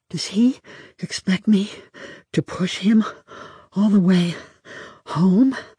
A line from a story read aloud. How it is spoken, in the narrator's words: asked myself, panting